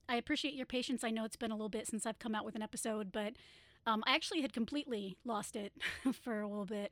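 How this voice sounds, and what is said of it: Slightly hoarse voice. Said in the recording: “I had been fighting laryngitis because of lovely allergies, so I apologize if I sound a little bit hoarse.”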